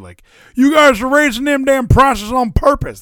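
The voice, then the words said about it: Imitates another person's voice. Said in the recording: “my Joe Biden impression.”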